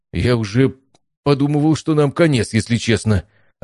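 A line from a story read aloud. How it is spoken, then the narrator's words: Joyful. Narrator (Russian): радостно сообщил Стас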